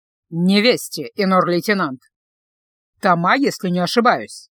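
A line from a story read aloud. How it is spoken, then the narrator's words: Nasty words through teeth. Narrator (Russian): необычайно гадко процедил Делиль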